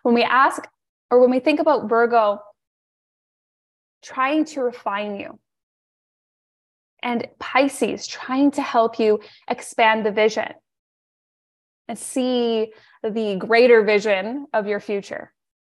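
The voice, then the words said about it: Strained, fading voice. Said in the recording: “I'm losing my voice here.”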